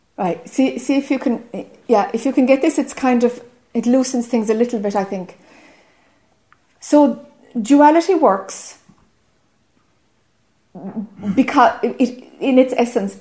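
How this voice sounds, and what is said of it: Irish accent. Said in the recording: “My accent has become very Irish, I'm told.”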